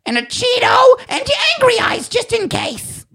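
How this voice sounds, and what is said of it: Impression of an old woman's voice. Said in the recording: “How does she talk? ... Which is a fucking good impersonation.”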